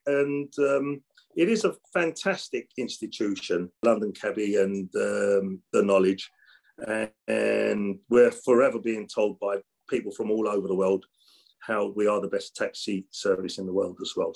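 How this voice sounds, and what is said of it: London East End accent. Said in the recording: “the way you speak, my friend, and that seems to be almost a London black cab accent ... either an Islington accent or an Essex accent, East End accent”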